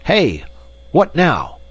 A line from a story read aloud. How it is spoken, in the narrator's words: shouted